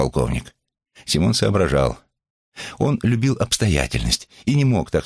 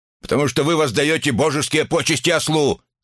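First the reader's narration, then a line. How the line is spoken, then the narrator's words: Angry shout. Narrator (Russian): крикнул рассерженный таким притворным невежеством полковник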